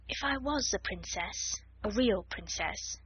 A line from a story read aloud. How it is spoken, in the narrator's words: she murmured